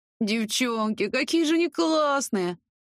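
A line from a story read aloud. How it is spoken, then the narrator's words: Whimpering again. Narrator (Russian): В очередной раз захныкала Инка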